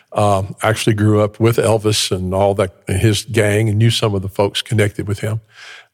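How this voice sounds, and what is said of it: Memphis Tennessee Southern accent. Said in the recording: “I grew up in Memphis, Tennessee. You can probably still hear the accent.”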